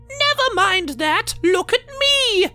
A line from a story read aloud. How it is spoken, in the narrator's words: Elizabeth screeched